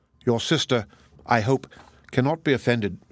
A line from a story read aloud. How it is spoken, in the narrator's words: said he